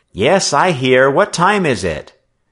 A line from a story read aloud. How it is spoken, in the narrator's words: he cried